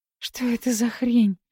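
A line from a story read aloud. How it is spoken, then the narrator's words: Barely breathed out. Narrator (Russian): Еле выдохнула Кира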